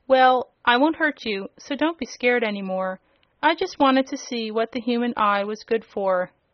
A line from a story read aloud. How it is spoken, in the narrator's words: she said quite cheerfully